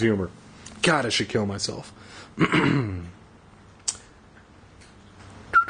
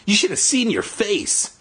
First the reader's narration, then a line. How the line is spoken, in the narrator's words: he cried